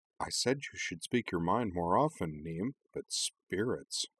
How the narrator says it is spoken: Cora murmured

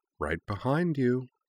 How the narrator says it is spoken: a low voice purred

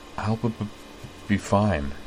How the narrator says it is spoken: she replied quietly

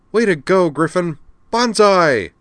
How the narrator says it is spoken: exclaimed

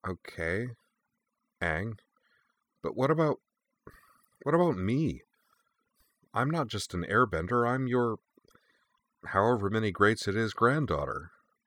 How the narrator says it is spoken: replied hesitantly

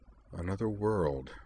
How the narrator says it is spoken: Sionji murmured

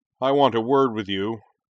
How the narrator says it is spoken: Shuten bellowed

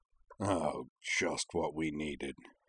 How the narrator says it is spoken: Zaid grumbled

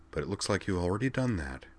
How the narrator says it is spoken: Wakaba replied in a dry murmur

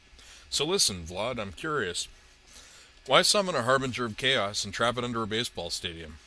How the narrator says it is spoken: Shandor chuckled

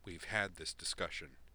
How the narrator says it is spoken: Chad said coldly

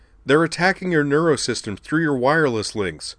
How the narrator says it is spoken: Sylvie yelled at them

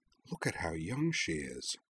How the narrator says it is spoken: Rory murmured

